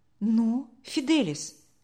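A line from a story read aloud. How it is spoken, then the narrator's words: Gentle question. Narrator (Russian): мягко спросил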